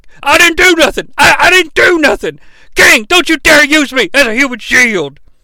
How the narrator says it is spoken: JR's yelling

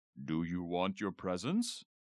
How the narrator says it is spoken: In a deep Santa voice, Dad asked

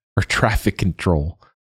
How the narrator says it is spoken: she laughed

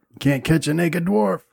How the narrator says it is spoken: chuckle and shout

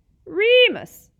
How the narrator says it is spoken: Pettigrew squeaked, writhing imploringly

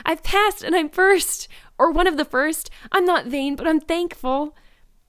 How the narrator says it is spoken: exclaimed Anne

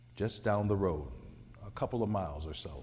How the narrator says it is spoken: he said

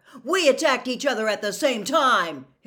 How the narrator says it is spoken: Harry shouted

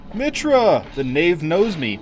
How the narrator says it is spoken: exclaimed the other

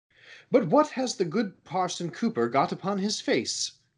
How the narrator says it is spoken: cried the sexton, sexton in astonishment

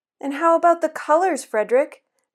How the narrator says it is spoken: they asked anxiously

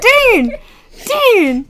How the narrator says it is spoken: Sam yells

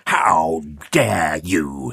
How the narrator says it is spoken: he spat

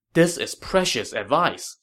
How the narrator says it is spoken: Sun Quan said happily

